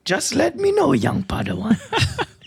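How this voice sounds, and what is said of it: Yoda impression. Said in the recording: “Like Yoda ... Now we need to find some Yoda smut so you could do that voice.”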